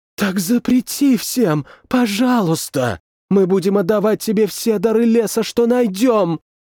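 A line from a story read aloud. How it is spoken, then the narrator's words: Pleading. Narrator (Russian): взмолилась она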